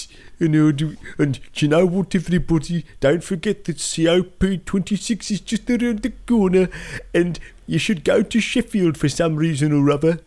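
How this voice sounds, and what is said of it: Put-on Wolverhampton accent. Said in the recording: “I can do a Wolverhampton accent”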